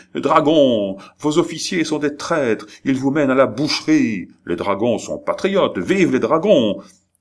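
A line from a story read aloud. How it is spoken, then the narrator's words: Crowd shouting. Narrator (French): Quant aux gardes nationaux et au peuple, ils criaient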